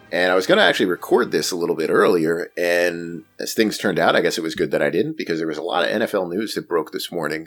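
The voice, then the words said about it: Hoarse, slightly tired voice. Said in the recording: “I was a little bit tired, and as you can hear, my voice is kind of hoarse”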